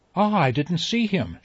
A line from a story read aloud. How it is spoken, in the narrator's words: she cried in her quick, light voice